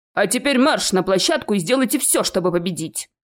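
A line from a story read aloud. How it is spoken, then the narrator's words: Barking teacher. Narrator (Russian): рявкнул учитель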